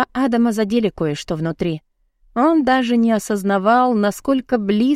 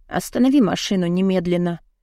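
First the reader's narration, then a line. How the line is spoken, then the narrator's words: Hollow, muffled voice. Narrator (Russian): проговорила глухим голосом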